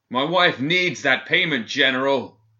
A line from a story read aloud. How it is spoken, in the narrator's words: he bellowed through the food pass in the door